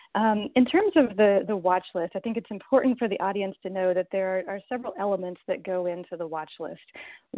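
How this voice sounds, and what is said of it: Soft, fatigued voice. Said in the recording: “my voice has gotten softer and softer from pure fatigue”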